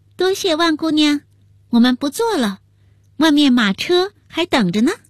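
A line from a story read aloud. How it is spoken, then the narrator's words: Loud. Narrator (Chinese): 又大声说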